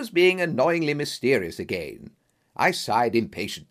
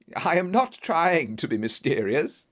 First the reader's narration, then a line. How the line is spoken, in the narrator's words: he said, laughing